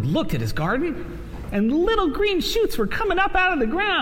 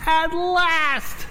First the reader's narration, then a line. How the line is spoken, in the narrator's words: shouted Toad